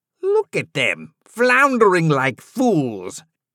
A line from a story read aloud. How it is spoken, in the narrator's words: Hook sneered